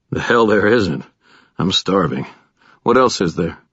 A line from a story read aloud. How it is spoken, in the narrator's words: murmured